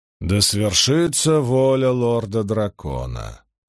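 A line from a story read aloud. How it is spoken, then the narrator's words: Sullen grumble. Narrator (Russian): угрюмо проворчал Вейрамон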